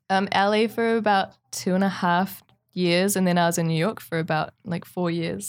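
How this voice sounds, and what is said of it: New Zealand accent, somewhat mixed. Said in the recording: “you have an accent ... What kind of foreign are you? ... I'm from New Zealand. ... my accent's a bit mixed up now”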